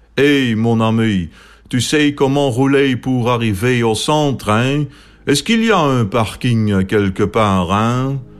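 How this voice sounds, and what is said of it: French with a heavy Limburg accent. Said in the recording (Dutch): “Frans met een flink Limburgs accent”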